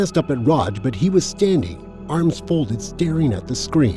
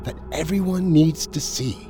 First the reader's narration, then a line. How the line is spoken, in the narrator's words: said almost in a whisper